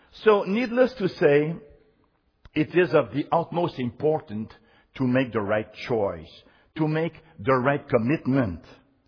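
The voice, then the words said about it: Speaks English with an accent. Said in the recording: “Even my silence have an accent.”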